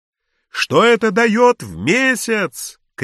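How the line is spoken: Shouted after someone. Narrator (Russian): крикнул Филюрин вдогонку

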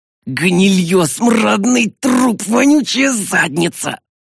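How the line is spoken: Hissed. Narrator (Russian): прошипел я

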